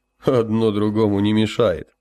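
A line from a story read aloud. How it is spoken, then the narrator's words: Laughing loudly. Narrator (Russian): захохотал Гилеровский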